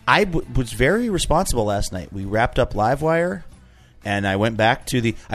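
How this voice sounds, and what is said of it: Slightly hoarse, strained voice. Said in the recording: “My voice is slightly blown out.”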